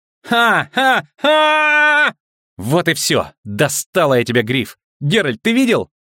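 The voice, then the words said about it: Excited shouting. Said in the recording (Russian): “Не ори”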